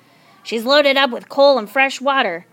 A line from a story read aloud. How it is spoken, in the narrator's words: snapped Captain Swain